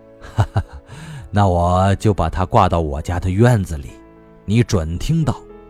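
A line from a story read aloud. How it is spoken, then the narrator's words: Old man, hearty laugh. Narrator (Chinese): 老人爽朗地笑着说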